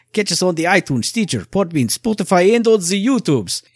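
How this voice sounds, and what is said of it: Poor put-on Russian accent. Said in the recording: “Russian accent ... My accent is not very good”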